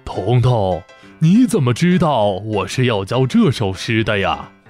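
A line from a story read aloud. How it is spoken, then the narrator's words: Surprised, smiling. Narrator (Chinese): 老先生惊讶地…笑着点头说道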